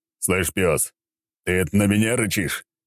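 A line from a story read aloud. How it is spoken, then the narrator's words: Growled reply. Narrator (Russian): рыкнул я в ответ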